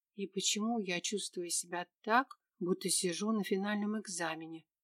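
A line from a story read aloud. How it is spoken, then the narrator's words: Whisper under breath. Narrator (Russian): себе под нос прошептала я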